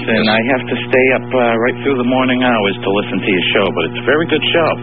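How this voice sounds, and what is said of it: Boston-area American accent. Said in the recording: “If I were to guess on this accent, I'd say it's coming from Boston or the environs of Boston.”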